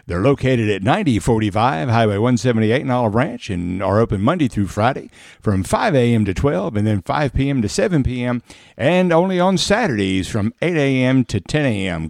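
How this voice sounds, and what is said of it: Exaggerated radio announcer voice. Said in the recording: “Did you like that radio voice? ... Man, you really put it on there thick, boy.”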